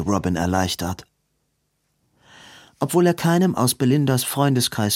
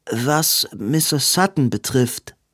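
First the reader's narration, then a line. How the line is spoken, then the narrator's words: Hesitant. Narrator (German): sagte er zögernd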